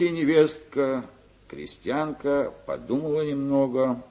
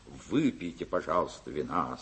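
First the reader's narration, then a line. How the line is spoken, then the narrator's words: Plain. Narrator (Russian): сказал ей свекр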